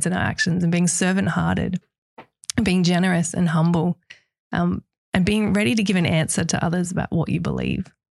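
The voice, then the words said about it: Weak, fading voice. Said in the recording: “my voice is disappearing. ... I'll struggle through things.”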